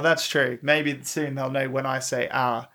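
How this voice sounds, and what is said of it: Speaker's own unusual accent. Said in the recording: “my funny accent ... It sounds like I'm saying "ah."”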